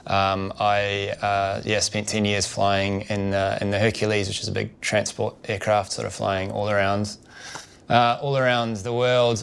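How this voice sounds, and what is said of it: New Zealand accent. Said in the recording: “I grew up in New Zealand, as you can probably tell by my accent”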